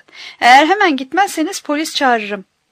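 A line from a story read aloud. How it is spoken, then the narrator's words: Shouting. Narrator (Turkish): diye bağırdı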